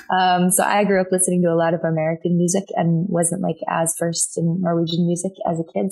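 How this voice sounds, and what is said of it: Slightly unusual American accent. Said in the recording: “I sound like this slightly weird American accent.”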